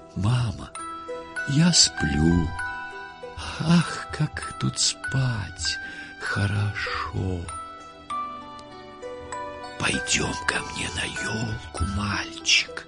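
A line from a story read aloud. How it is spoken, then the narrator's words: Sudden soft whisper. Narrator (Russian): прошептал вдруг тихий голос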